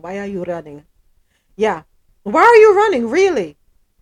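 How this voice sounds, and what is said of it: Put-on African accent. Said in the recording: “I'm saying that in an African, with an African accent in my head from the song”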